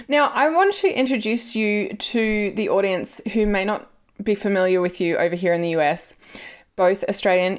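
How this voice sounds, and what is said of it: Loose Australian accent. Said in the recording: “your Australian accent is pretty loose now ... It's considered still very wildly Australian ... it is a very loose Australian accent”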